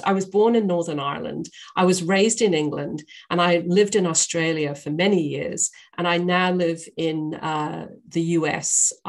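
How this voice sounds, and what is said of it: Mixed British accent. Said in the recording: “this silly accent is I have, I'm a Brit ... I will go in and out of all of these different accents. I'm a bit of a melting pot when it comes to accents.”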